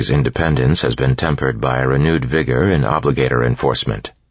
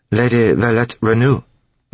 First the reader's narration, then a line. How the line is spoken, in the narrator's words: the tall man asked in a faintly accented voice